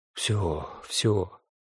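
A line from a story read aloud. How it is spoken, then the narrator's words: Mumbling. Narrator (Russian): забормотал он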